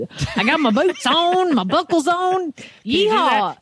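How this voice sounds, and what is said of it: Put-on Southern accent. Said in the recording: “I feel like I need to talk in a Southern accent”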